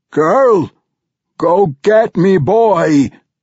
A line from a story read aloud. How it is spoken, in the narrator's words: Brunner cried, but his voice sounded distorted